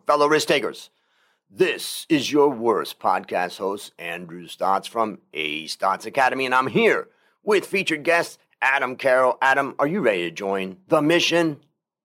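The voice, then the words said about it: Energetic radio announcer voice. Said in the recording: “Can you feel my energy? I said I'm going to bring you on my radio voice, and here it is.”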